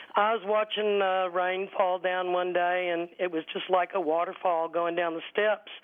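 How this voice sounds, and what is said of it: Hoarse, cold-affected voice. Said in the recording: “Sounds like you're on the tail end of a cold or something... I've got a little bit of a hoarse throat”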